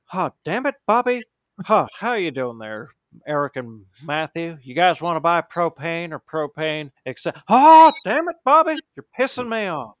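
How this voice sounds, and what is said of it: Hank Hill cartoon character voice. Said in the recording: “you forgot I had a Hank Hill ... my shitty impersonation”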